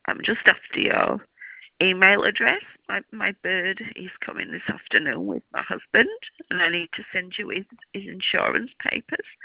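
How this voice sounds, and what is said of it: Hoarse, sore-throated voice. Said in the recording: “I've got a sore throat.”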